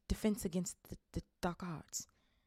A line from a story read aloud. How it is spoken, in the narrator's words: muttered Professor Quirrell, as he'd rather not think about it